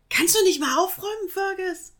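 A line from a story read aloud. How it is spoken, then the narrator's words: Calling upstairs. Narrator (German): rief nach oben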